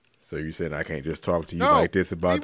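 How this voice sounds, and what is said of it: Deep put-on sexy voice. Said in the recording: “sexy voice for your wife or some shit ... You use your regular fucking voice, your regular octaves. Because if you go deep again”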